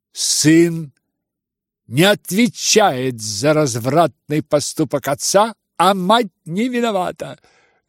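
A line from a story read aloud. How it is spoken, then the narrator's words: Heated shriek. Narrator (Russian): с жаром провизжал Ипполит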